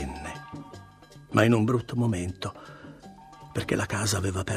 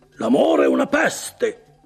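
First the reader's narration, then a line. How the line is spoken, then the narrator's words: Thundered. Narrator (Italian): tuonò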